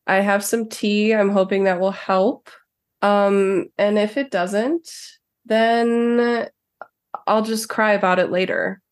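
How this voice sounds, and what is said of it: Sick, rough-sounding voice. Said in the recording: “I have COVID ... my voice is terrible”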